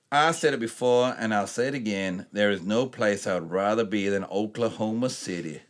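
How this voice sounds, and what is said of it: Terrible put-on American accent. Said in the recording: “a terrible American accent”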